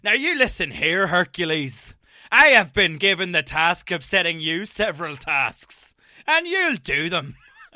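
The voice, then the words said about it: Ian Paisley impression, Northern Irish accent. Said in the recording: “his very best Ian Paisley impression”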